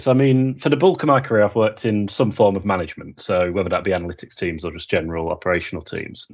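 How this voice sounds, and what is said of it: Slight Yorkshire accent. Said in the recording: “slightly Yorkshire-y twang to my accent ... quite approachable and quite a friendly sort of version of English”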